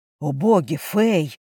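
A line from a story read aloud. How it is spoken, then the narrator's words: Breathless exclamation. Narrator (Russian): выдохнул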